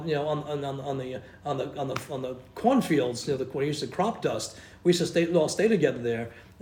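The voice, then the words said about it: Rhode Island New England accent. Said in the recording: “my Rhode Island accent ... because I talk Rhode Island, you know, New England”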